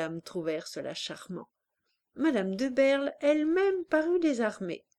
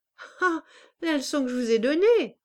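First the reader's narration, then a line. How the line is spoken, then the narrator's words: Exclamation. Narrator (French): s'écria-t-il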